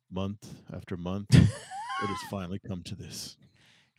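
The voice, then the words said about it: Super serious Michael Cole impression. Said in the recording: “you get Michael Cole in his super serious voice.”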